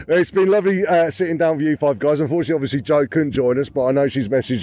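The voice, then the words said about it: Strained, fading voice. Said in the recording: “I'm losing my voice. I've done a bit of shouting today.”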